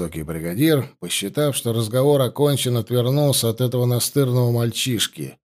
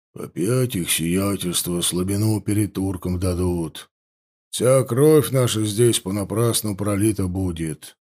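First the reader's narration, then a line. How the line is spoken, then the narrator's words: Grumbling soldiers. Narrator (Russian): ворчали солдаты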